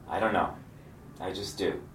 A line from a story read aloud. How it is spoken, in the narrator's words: calmly replied